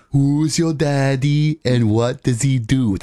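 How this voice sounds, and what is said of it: Imitates another person's voice. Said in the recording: “could do an Arnold Schwarzenegger impersonation ... That was really good. ... You sounded just like him.”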